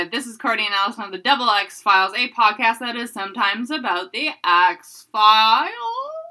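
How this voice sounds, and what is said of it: Speaking with heavy vocal fry. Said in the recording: “You got that vocal fry.”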